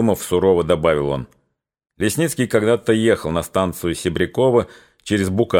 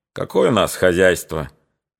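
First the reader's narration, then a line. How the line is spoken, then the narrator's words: Mocking, slightly regretful. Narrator (Russian): насмешливо, с ноткой сожаления сказал Лагутин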